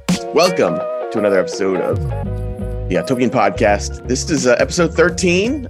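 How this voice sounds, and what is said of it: Slightly gravelly voice. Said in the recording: “Your voice is a little gravelly this morning.”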